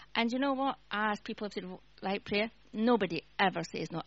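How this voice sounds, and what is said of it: Scottish accent. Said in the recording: “I've got a Scottish accent”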